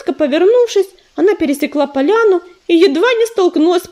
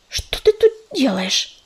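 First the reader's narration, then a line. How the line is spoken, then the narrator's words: Hissing. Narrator (Russian): зашипела рыжинка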